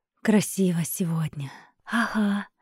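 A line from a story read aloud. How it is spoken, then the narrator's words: Quiet offhand remark. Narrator (Russian): тихо бросила Катя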